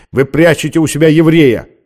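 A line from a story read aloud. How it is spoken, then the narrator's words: Officer barking from doorway. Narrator (Russian): рявкнул с порога офицер в черном мундире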